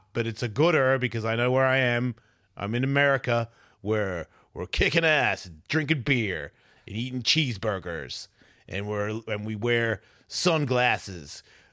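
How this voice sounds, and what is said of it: Exaggerated put-on American accent. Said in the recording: “I'm really pouring on the American accent right now.”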